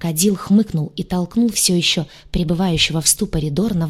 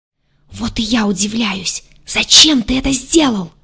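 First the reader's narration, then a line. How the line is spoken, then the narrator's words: Angry whispered yell. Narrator (Russian): Целитель загадочным образом умудрялся гневно вопить шепотом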